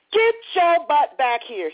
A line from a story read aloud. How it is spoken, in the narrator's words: he hollered down the street